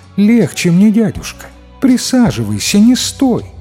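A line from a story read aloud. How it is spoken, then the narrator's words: Sweet female voice. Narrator (Russian): говорит милым женским голосом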